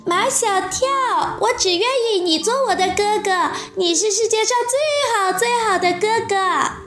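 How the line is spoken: Loud. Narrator (Chinese): 杜真子大声说

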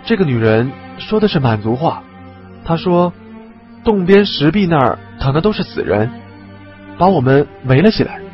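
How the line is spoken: Low voice. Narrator (Chinese): 王刚低声道

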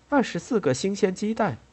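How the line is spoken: Cheerful, laughing. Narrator (Chinese): 阿莲娜向他俩愉快地笑着说

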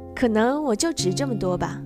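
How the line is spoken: Smiling. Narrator (Chinese): 我笑着说

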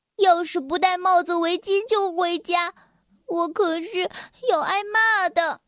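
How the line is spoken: Glum, tearful. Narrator (Chinese): 辛迪哭丧着脸说

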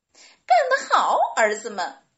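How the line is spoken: Laughing. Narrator (Chinese): 小狐狸们笑道

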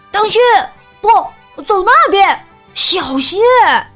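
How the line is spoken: Uncontrolled shouting. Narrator (Chinese): 他忍不住大喊大叫

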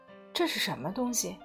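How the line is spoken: Timid hushed question. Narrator (Chinese): 我压低嗓门，怯生生问道

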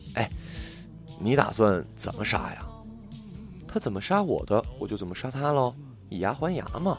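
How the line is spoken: Through gritted teeth. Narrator (Chinese): 漂亮姐姐咬牙切齿的说道

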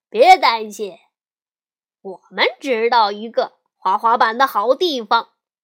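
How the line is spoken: Grinning. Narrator (Chinese): 大高个咧嘴笑着说

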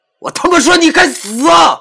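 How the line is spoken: Very loud, voice-breaking scream. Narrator (Chinese): 我的喊声很大，在这空旷的夜晚，估计隔很远都能听得到，似乎嗓子都要碎了

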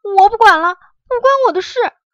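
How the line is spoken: Queasy frantic cry. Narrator (Chinese): 月牙都快吐了，忙飞上天叫

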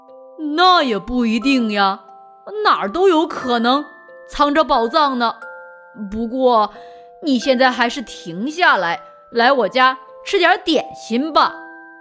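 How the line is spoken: Calling out. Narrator (Chinese): 克罗迪喊道

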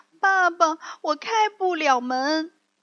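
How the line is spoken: Little puppet crying. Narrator (Chinese): 小木偶哭着说

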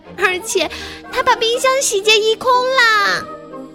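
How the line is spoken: Tiny thin-voiced cub shouting. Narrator (Chinese): 小巧玲珑的熊宝宝用他那细声细气的小嗓门喊道

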